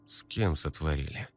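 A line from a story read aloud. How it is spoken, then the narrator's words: Flat reluctant colorless voice. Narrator (Russian): Против воли спросил священник бесцветным голосом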